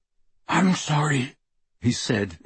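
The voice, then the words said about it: Thick, choked-up voice. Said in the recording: “in a thick voice.”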